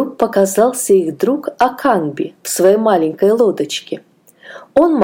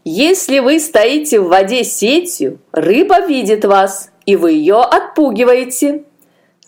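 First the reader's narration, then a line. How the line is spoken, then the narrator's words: Laughing. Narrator (Russian): Засмеялся Аканби, заметив, что их сети пусты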